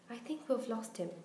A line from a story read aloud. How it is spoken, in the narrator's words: Harry panted